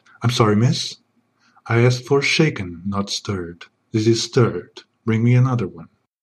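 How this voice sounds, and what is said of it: Suave sexy James Bond voice. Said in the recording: “I keep my sexy voice even when I'm laughing”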